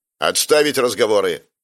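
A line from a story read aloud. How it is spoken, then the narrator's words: Barking. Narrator (Russian): рявкнул Райан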